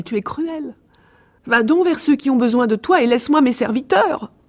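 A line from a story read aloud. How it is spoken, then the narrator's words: Exclaiming. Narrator (French): s'écria-t-elle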